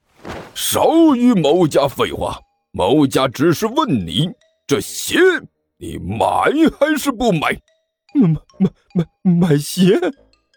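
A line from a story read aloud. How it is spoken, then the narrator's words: Loud roar. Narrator (Chinese): 关小雨大吼了一声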